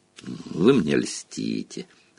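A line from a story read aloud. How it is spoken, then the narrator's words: Calm. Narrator (Russian): спокойно ответил Дамблдор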